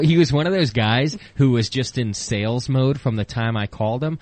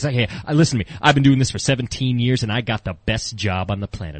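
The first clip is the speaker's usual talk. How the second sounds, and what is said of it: Smooth radio-style salesman voice. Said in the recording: “he's got like a awesome radio voice kind of sales guy.”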